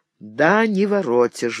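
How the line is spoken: Sighing. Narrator (Russian): вздохнул тот

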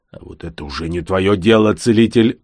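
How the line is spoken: Snapping retort. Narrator (Russian): огрызнулся крючконосый

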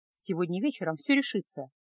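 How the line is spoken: Quiet. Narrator (Russian): тихо произнесла она

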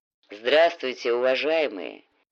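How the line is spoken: Deep bass voice. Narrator (Russian): неожиданно густым басом произнес всадник

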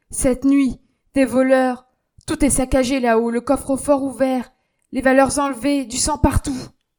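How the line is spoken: Frightened exclamation. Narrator (French): Germaine pâlit et s'écria

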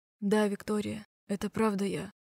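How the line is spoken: Whisper. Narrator (Russian): шептал он

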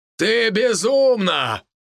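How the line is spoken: Magically amplified shout. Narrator (Russian): выкрикнул новый император, чей голос был усилен магией

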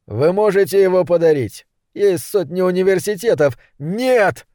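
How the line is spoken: Shouted out. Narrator (Russian): выкрикнул он

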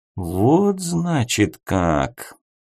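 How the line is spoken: Thoughtful drawl. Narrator (Russian): протянул задумчиво Сонг

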